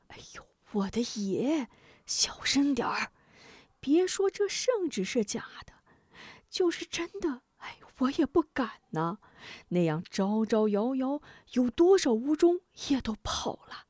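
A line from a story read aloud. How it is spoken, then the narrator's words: Frightened hushed voice. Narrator (Chinese): 许人吓得，惊惧的压低声音道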